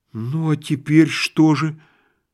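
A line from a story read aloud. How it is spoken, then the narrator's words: Frightened, smiling question. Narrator (Russian): спросил Балаганов, испуганно улыбаясь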